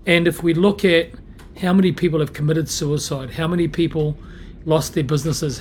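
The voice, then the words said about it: Hoarse, croaky voice. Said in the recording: “I've got a bit of a frog in my throat.”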